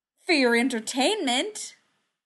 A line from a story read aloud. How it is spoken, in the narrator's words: he exclaimed